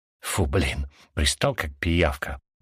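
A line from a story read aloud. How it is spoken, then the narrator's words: Relieved mutter. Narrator (Russian): пробормотал я с облегчением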